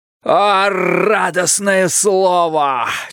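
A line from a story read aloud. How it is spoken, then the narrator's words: Almost shouting. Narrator (Russian): чуть не крикнул Бидвелл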